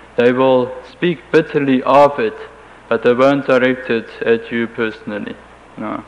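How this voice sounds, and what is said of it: German accent in English. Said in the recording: “They almost always hear that I am German from my accent”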